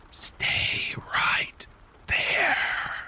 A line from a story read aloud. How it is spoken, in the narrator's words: a chilling voice whispered into my ear